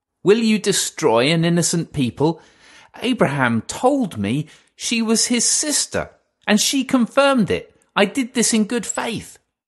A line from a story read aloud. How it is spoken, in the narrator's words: Abimelech pleaded with Elohim